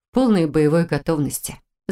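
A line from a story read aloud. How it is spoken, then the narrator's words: Reassuring, forced calm. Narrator (Russian): заверила та, стараясь выглядеть так же спокойно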